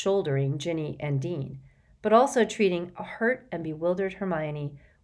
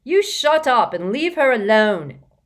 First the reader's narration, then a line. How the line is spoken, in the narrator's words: shouted Peaks, who was about two-thirds Ron's height